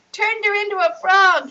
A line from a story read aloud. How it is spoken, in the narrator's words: shouted